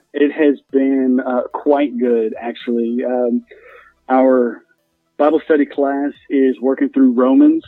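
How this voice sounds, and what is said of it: Southern US accent. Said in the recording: “your accent has brought back some fond memories there ... There's nothing like the South.”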